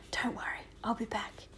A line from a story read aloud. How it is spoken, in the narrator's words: whispered